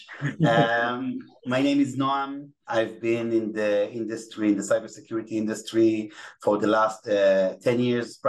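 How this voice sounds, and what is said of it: Israeli-accented English. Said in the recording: “I apologize in advance for my Israeli accent ... English is not my native language”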